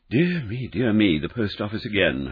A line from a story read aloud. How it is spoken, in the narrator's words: Holmes sighed wearily